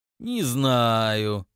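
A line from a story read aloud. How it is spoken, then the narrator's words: Tedious drawl. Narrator (Russian): занудно протянул патриарх семьи Баадил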